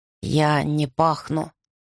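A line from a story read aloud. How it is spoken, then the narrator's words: Grim. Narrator (Russian): так же мрачно сказал он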